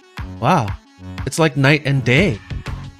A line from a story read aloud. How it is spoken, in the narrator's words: Megan exclaimed